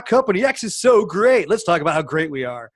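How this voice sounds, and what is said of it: Cheesy radio announcer voice. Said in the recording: “that shitty radio voice that I just did”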